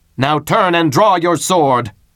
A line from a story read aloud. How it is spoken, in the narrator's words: shouted Tybalt